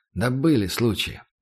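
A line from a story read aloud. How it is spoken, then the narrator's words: Calm. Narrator (Russian): я спокойно ответил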